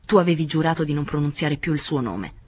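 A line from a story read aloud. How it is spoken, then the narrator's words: Harsh voice. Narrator (Italian): disse con voce aspra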